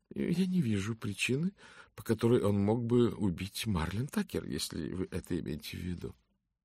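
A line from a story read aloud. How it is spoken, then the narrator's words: Calm. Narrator (Russian): спокойно сказала миссис Фолиат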